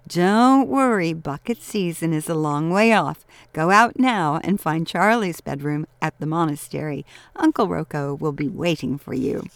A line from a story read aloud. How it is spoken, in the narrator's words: Laughing, Emiliana said